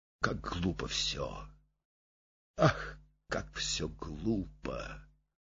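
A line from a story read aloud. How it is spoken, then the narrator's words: Muttering. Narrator (Russian): бормоча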